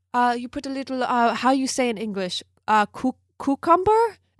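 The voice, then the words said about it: Imitating Hilaria Baldwin's fake Spanish accent. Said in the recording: “uses an accent and says she's from Spain ... this is a British accent, sorry, by the way. I'm not Meryl Streep.”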